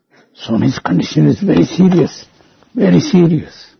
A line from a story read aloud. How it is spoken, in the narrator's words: In a frantic voice, kept on whispering